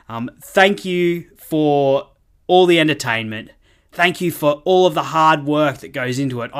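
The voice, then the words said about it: Noticeable accent. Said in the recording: “in case you didn't get it from the accent”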